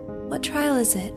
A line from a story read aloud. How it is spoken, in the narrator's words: Alice panted as she ran